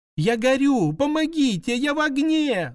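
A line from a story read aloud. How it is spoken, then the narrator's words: Panicked screaming. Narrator (Russian): закричала, завизжала в панике Пончик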